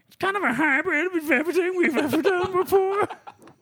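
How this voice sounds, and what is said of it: Impression of Rogan Howitt. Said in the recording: “I'm going to do Rogan's voice. ... That was actually ... doing a vocal impression of the man.”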